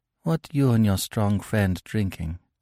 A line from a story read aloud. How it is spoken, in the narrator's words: she said softly